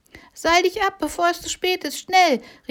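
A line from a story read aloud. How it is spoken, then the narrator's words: Calling out. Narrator (German): rief Busy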